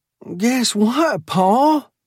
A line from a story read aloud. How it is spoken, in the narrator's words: yelled